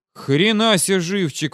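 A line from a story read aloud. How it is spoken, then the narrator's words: Breathless exclamation. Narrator (Russian): выдохнул он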